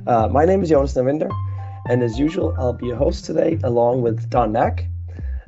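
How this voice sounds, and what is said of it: Slightly raspy voice. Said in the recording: “my voice is a little bit raspier than normal”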